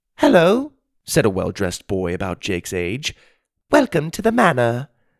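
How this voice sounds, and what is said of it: Pleasant British accent. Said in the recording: “He spoke in a pleasant British accent.”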